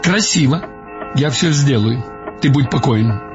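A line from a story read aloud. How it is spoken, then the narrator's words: Clipped, while typing. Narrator (Russian): говорил он отрывисто во время печатания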